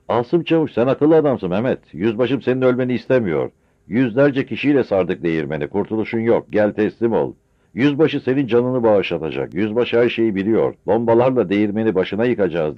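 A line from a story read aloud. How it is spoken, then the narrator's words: Shouted. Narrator (Turkish): diye bağırdı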